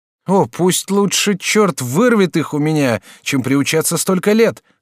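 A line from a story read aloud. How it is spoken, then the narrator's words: Shout. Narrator (Russian): закричал Жак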